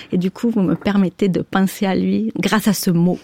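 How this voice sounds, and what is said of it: Southern French accent. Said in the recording (French): “Avec votre joli accent du Sud.”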